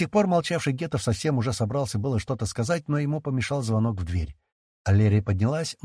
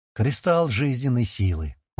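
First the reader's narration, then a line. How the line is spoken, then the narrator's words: Grim statement. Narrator (Russian): мрачно констатировала Инферика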